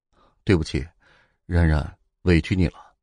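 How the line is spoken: Sheepish, sighing. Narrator (Chinese): 齐军叹着气，像是一个做错事的孩子一样，对宋冉说

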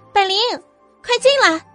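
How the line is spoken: Loud call. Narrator (Chinese): 对着门外高喊

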